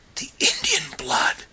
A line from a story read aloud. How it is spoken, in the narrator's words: whispered John Silence